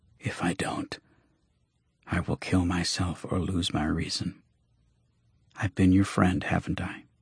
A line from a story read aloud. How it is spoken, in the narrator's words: His voice dropped to the faintest of whispers